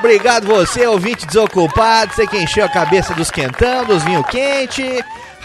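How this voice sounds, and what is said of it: Put-on Brazilian caipira accent. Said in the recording (Portuguese): “aquele sotaquezinho de caipira”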